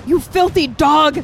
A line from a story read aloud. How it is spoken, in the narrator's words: I screamed, blazing in the mad fury